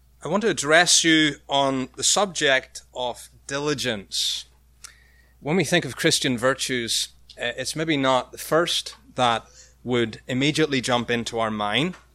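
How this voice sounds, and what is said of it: Irish accent. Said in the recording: “you may struggle with mine. It's an Irish accent”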